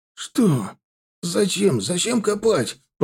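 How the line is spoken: Moaning. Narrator (Russian): простонал он

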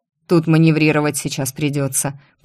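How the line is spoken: Grumbled into ear. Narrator (Russian): проворчал мне на ухо

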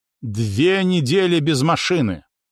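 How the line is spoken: Loud angry announcement. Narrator (Russian): зло и громко объявила

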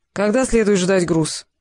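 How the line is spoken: Dejected, resigned question. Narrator (Russian): уныло осведомился смирившийся с судьбой Кантер

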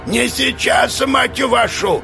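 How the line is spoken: Yelling. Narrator (Russian): Герджин заорал

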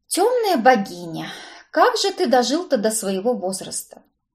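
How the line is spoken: Sighing, humble. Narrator (Russian): Вздохнула я и смиренно добавила

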